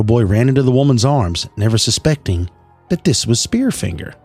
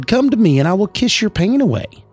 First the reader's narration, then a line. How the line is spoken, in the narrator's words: a kindly old woman swooped in and said